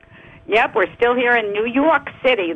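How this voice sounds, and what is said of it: New York accent. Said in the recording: “That's my accent.”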